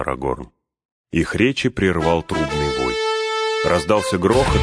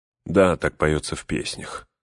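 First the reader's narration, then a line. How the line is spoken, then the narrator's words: Weary reply. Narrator (Russian): устало отвечал Эомер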